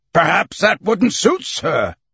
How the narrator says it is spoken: Colonel Proctor said with a sneer

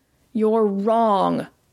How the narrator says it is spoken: shouted Mel

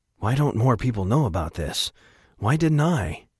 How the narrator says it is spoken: Atticus asked, his voice nearly a whisper

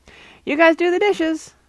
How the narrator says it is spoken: I hollered

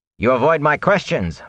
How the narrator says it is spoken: Bornhold snapped

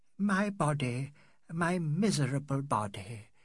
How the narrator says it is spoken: sighed

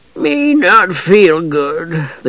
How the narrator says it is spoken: the gully dwarf said thickly

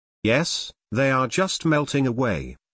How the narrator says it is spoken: Blair said

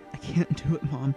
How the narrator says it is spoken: whispered

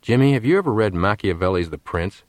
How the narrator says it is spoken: asked Fletcher

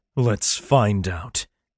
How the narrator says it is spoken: snarled in response

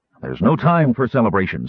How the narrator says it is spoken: Sturm said hastily

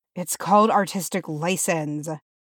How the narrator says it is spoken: muttered to himself

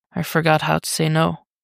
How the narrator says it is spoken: Dick murmurs

